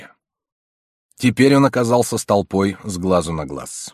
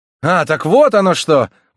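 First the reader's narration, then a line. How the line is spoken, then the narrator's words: Sudden excited exclamation. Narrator (Russian): воскликнул Ка, поскольку внезапное открытие требовало себе места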